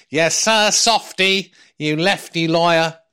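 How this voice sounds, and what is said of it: Impression of Rishi Sunak. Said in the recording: “That's my impression of uh, Sunak.”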